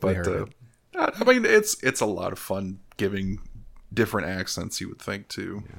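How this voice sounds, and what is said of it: Usual voice. Nothing is said of it.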